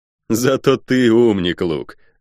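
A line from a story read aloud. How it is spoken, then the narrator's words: Laughing. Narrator (Russian): рассмеялся я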